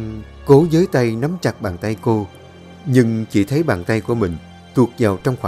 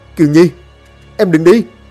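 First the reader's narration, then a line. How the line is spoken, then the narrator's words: Wailing cry. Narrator (Vietnamese): Long liền kêu gào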